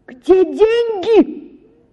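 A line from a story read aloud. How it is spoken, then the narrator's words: Sudden alarmed shout. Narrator (Russian): закричала вдруг матушка, разом догадавшись, что произошло что-нибудь необыкновенное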